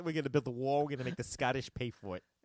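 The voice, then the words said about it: Put-on Long Island accent. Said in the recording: “I only know how to do one accent, and it's not the, it's not really the Donald. It's the Long Island kid I went to school with.”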